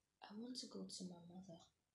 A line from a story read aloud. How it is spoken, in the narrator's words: Kirabo mumbled